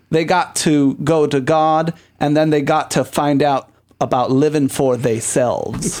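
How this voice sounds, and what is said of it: Put-on dialect reading a quote. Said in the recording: “You need to work on your accent, honey. ... I don't want to sound like Olympia Dukakis.”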